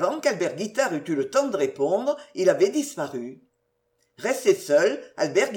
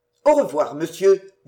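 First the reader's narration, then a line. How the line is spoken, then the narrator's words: Curt. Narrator (French): dit-il sèchement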